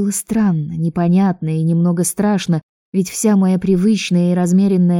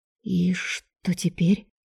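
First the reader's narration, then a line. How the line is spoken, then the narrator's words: Quiet stunned disbelieving question. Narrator (Russian): тихо спросила я, все еще не в силах поверить и осознать сказанное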